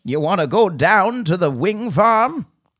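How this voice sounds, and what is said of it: Old person voice, continental accent. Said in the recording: “old person voice ... continental ... Accent, old person.”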